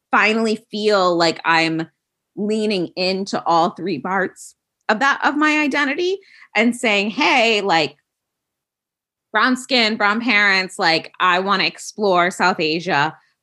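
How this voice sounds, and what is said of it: American Midwestern accent. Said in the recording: “you can hear I'm very, very American, Midwestern in terms of accent.”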